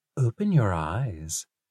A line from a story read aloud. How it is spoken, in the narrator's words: Arthur whispered